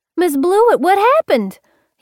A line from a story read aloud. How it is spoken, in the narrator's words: He hollered